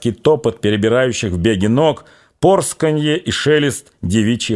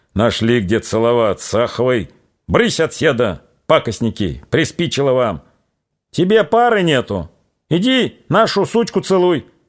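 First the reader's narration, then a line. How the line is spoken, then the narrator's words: Hoarse rough muttering. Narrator (Russian): чей-то сиплый грубый голос бубнил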